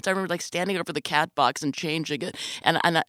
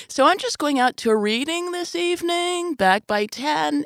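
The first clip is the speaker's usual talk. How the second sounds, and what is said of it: High-pitched voice. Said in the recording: “in this high voice,”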